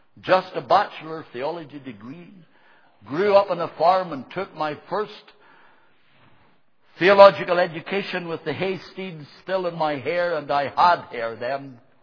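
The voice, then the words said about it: Speaks with a strange accent. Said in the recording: “me with a strange accent”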